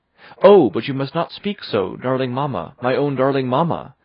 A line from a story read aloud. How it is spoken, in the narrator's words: I exclaim, tears of joy and love fall from my eyes